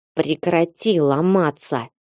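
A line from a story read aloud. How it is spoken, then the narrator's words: Rough command. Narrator (Russian): грубо приказал он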